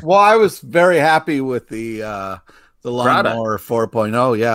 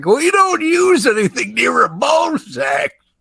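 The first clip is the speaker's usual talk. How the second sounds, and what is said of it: Imitates other people's voices. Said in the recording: “That's a really good impersonation of both of us... Yeah, that is how we sound.”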